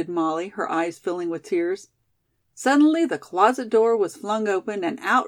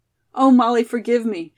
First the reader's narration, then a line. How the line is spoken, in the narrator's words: she cried